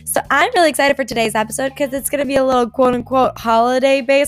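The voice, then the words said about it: Slightly hoarse voice. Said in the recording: “my voice might be just a little hoarse.”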